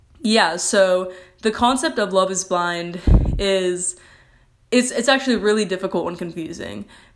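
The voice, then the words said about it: Sarcastic tone. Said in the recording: “I'm being sarcastic if you can't tell”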